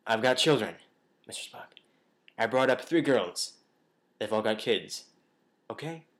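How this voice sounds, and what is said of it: William Shatner impression. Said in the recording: “I've got to do William Shatner. ... Okay, do a Shatner voice.”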